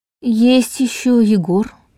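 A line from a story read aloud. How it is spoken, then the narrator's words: Uncertain drawl. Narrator (Russian): неуверенно протянул Долгов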